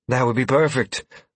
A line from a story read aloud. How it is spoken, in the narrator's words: the woman exclaimed, relief